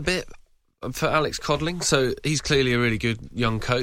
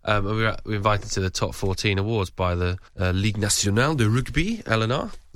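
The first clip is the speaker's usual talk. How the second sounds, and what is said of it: Put-on French accent. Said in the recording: “That's my French accent. I've been working on that”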